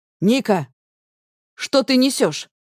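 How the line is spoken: Sharp retort. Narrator (Russian): резко бросает Макс

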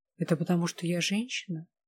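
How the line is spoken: Quiet hurt question. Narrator (Russian): с обидой тихо спросила

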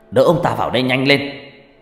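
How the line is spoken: Shout. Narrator (Vietnamese): Ông thầy hét lên

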